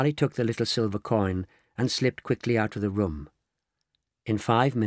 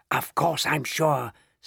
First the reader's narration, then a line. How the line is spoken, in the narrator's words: spluttered the old man excitedly